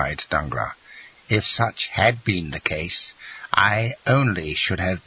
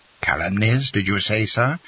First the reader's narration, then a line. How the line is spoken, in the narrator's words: cried Morcerf, turning livid with rage